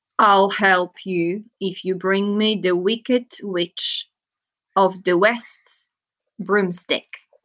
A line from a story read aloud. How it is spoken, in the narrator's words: he said